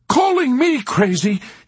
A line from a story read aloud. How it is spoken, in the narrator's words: he shouted in a sputtering rage